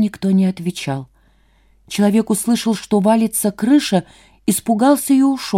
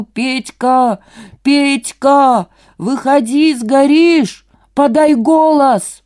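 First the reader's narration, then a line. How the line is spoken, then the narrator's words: Full-force shout through mask. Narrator (Russian): Человек в маске кричал со всей силы через маску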